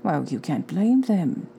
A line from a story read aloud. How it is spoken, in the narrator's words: said Dumbledore gently